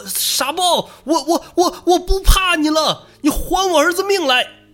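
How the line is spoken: Shouting while attacking. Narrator (Chinese): 肥狗 边抡边喊说

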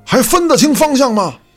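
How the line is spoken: Shout. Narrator (Chinese): 孙大圣喊了一声

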